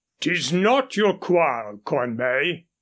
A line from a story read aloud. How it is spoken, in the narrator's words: growled Ferrers